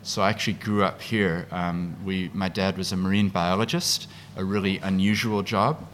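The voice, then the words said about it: Speaks with a noticeable accent. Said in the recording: “as you can hear, I have an accent”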